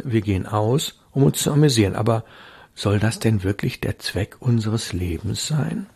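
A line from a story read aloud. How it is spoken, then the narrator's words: Said softly. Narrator (German): sagte Hilda leise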